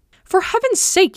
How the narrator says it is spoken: he cried to Pangloss

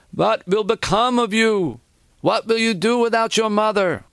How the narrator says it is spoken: One of his aunts, a heavyset woman, began to wail

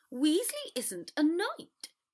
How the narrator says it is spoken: Draco said crossly

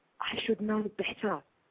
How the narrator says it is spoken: I whispered back

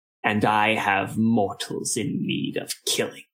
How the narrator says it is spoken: hissed

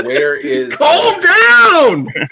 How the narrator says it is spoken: holler

